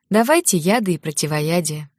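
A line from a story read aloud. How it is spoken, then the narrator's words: Sigh of feigned dismay. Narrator (Russian): вздохнула девушка в притворном огорчении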